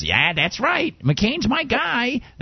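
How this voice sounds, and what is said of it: Imitates a woman, sounding older. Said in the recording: “she was a lot younger than my impression of her sounds”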